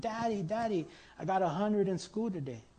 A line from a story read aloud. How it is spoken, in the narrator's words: a little boy named Johnny came running into the house after school one day shouting